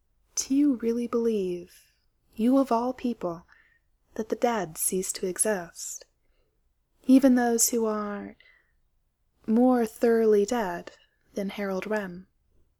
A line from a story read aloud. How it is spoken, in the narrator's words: very quietly, Illion said